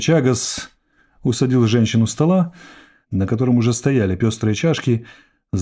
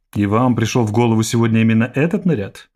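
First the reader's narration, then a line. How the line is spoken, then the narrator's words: Plain. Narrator (Russian): спросила Эрвобия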